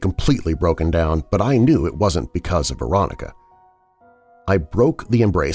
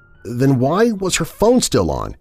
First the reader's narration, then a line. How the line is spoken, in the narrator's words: She continued sobbing